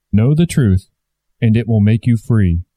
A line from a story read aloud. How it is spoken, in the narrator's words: said the Christ